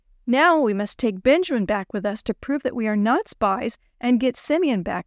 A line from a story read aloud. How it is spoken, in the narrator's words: they said